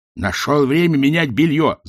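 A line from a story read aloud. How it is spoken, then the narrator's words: Growling. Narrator (Russian): зарычал Ринсвинд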